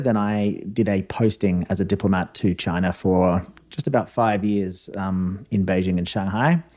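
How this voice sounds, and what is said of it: Fading Australian accent. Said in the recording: “I was an Australian diplomat. You can probably tell by the accent, although I'm told it's fading over time.”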